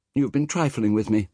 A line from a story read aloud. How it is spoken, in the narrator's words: he cried